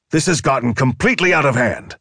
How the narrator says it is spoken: Cage shouted into the receiver

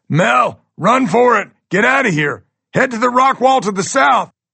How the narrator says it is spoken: I finally decide to yell out

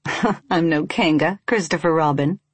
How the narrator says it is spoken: she said, chuckling

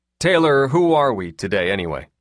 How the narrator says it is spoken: He asked with a chuckle

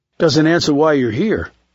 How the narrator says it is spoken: said Decker

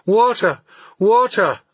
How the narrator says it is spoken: I cried

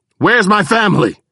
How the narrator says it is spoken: I yelled

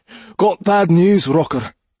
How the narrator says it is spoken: the doorman panted

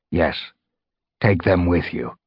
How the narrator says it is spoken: Whitestorm put in, his voice grave

